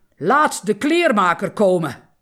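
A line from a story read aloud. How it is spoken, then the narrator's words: King calling out. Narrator (Dutch): De koning riep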